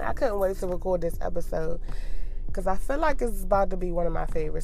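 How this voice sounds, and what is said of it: Sick, rough-sounding voice. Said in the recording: “my voice sounds fucked up because I've been sick for a week ... if I cough during this joint, don't mind me”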